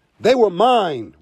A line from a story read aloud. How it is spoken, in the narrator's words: Rabbit shouted